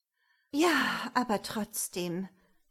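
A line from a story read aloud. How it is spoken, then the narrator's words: Soft sigh. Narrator (German): seufzte leise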